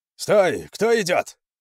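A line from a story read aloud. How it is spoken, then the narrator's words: Sentry shouting. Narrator (Russian): крикнул Конану один из часовых на мосту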